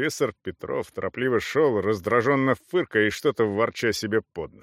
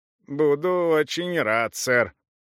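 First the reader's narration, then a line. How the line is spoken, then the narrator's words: Creaky voice. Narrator (Russian): проскрипела Саламандра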